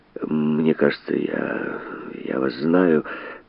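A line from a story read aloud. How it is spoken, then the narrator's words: Uneasy mutter. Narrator (Russian): Ему было явно не по себе под неожиданно удивленным взглядом Шарло, и он пробормотал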